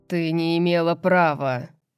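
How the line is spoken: Booming male voice, muffled. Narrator (Russian): прогремел мужчина Фейри за закрытой дверью

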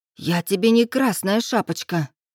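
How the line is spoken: Angry hiss. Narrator (Russian): зло прошипела она

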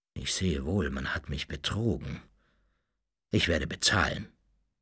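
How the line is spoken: Pained murmur. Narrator (German): Mit schmerzlicher Miene murmelte

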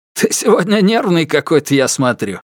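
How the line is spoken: Laughing speech. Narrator (Russian): его друг засмеялся и сказал

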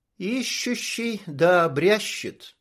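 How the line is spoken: Spoken slowly. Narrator (Russian): произнесла медленно Анжелика

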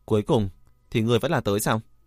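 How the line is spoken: Cold, annoyed. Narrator (Vietnamese): Lãnh Thu Linh đang khó chịu, lạnh lùng nói

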